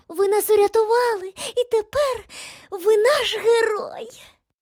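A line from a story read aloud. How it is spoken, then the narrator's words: Squeaky voice. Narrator (Ukrainian): пропищала третя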